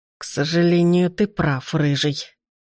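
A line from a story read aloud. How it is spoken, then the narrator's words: Strained through clenched teeth. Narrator (Russian): сквозь стиснутые зубы процедил незнакомец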